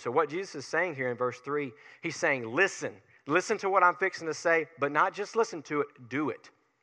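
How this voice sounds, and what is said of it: Tanner Williams regional dialect. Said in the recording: “that's the Tanner Williams in my voice coming out ... make fun of me all the time for my dialect, my Tanner Williams dialect”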